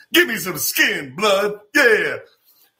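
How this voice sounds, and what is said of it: Exaggerated 1970s-style slang voice. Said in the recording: “whenever I do a black impression, I like to do the 70s.”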